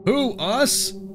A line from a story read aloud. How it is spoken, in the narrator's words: Mark said with feigned indignation dripping from the response as he suppressed a chuckle of his own